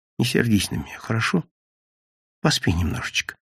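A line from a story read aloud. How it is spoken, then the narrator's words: Quiet, guilty. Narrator (Russian): говорила она все так же виновата и тихо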